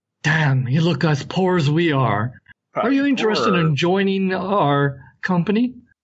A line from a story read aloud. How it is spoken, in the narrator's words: a fellow in leathers comes out with a spear, kind of leans on the spear, sighs, and goes like